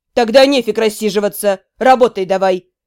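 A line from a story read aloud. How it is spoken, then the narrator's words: Growled. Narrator (Russian): Прорычал Демиург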